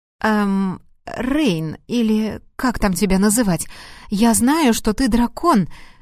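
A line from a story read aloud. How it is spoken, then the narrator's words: Uncertain. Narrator (Russian): начала неуверенно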